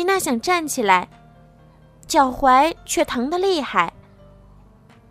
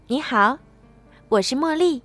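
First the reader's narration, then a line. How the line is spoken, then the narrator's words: Gentle. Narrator (Chinese): 公主温柔的对她说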